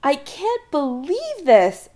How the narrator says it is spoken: Adam exclaims

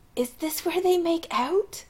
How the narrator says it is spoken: Anoop whispers

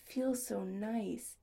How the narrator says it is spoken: he murmured huskily

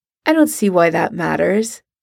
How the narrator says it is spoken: he says evenly

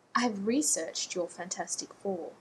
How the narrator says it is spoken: she said coolly

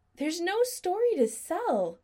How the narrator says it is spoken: Adam said desperately

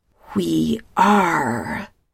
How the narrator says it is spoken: Telesa snaps

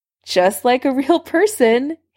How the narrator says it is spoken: Harry laughed

